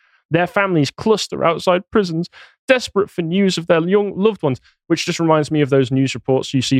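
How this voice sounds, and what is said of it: Usual voice. Nothing is said of it.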